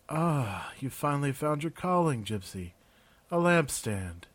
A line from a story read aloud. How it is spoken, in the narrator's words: Raven said sleepily